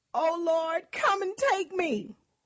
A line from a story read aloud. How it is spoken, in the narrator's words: In her agony, she cried out